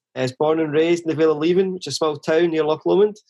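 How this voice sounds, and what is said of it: Scottish accent. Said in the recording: “you can probably tell from my accent that I'm originally from Scotland”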